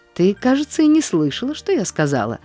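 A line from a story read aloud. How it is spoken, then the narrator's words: Offended remark. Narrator (Russian): заметила она обиженно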